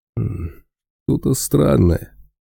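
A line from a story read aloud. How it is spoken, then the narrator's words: Bear's grunt. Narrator (Russian): хмыкнул медведь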